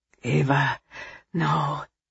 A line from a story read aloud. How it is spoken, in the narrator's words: he said softly